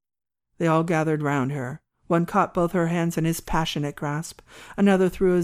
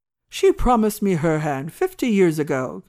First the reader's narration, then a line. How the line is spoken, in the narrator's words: exclaimed Mr